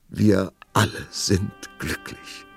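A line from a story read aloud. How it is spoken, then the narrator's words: Sobbing. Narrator (German): schluchzte die Prinzessin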